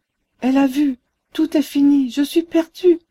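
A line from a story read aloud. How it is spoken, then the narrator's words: Broken, barely audible cry. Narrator (French): s'écriait-elle d'une voix entrecoupée, à peine perceptible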